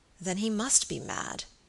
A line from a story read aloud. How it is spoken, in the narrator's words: said Sir Michael gravely